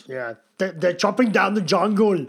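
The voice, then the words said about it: Imitates another person's voice. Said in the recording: “That is the best accent I've heard today. Oh, I'm not Schwarzenegger.”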